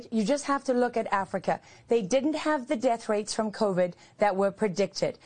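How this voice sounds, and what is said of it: Slightly posh accent. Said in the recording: “a bit of a posh accent? ... come over from the mother country”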